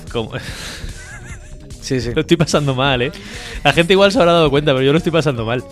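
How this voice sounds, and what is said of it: Deep announcer-like voice, unwell. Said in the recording (Spanish): “Con energía y con ganas, como tu voz ... así tengo más voz de locutor todavía”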